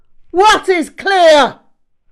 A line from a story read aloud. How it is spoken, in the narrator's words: He barked back at terrific volume